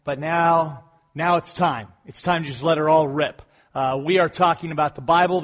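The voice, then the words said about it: Slightly off, sick-sounding voice. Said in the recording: “I have been sick this last week, so my voice sounds just a little bit off”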